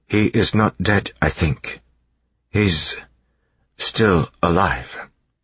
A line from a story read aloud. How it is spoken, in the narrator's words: Sazed said slowly